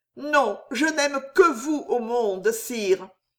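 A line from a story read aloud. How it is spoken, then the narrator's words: Deep, sobbing, heartfelt voice. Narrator (French): répondit Jeanne d'une voix pénétrante, brisée de sanglots, et si profonde, si vraie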